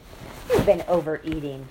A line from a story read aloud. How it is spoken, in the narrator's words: she barked